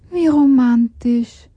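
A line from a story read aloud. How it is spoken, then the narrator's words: Sighed. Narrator (German): seufzte Hanna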